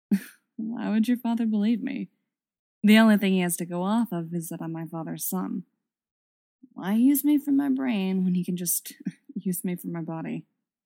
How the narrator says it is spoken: He'd scoffed, a bitter smile stealing over his features

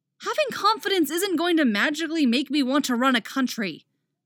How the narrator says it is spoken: Artemis exclaims, throwing her arms out in exasperation

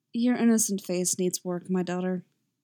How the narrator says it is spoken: she murmurs

